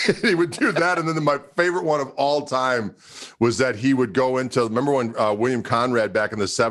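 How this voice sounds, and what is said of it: Usual voice. Nothing is said of it.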